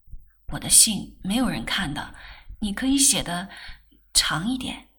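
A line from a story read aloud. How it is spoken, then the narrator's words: Low urging. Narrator (Chinese): 世君向曼桢低声叮嘱道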